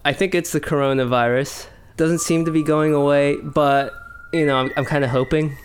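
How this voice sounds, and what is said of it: Croaky, sick-sounding voice. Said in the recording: “hear it in my voice. It's all croaky”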